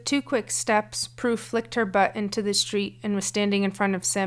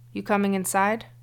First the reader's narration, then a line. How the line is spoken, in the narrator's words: Her voice was slightly lower than usual and her brow furrowed, though not quite angry